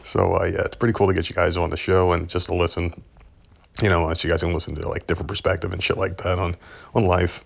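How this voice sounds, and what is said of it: Scratchy, congested, sick-sounding voice. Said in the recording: “My voice is a little screwy ... I've been kind of sick ... my sinuses are building up, and my throat's been really, like, scratchy”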